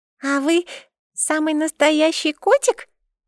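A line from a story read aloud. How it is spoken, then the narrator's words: Squeaky. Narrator (Russian): пропищала Юла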